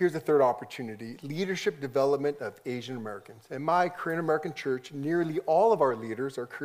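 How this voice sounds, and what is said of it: Usual voice. Nothing is said of it.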